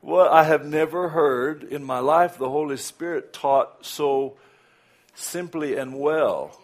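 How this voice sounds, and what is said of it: Southern American accent. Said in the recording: “these accents that we have ... a southern accent”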